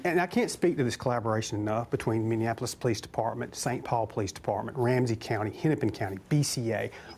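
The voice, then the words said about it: Southern American accent. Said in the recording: “his accent. They done went and got them a redneck from the South or somewhere.”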